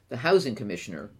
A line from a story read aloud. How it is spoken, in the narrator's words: replied Detective Lo